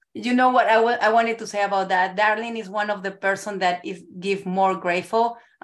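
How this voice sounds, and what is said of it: Non-native foreign accent. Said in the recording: “we have an accent. We're not from here”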